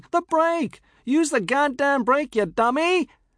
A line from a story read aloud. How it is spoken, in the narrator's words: her shouting